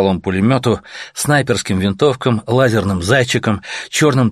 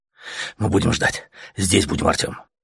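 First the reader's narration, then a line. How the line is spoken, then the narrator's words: Fervent whisper. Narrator (Russian): Горячо зашептал Летяга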